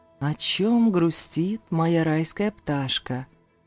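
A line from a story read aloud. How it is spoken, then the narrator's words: Tender. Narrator (Russian): ласково произнес Зейн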